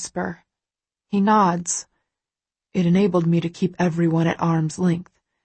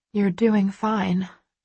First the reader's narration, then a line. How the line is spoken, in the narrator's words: I murmur